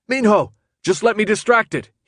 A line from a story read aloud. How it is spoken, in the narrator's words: he yelled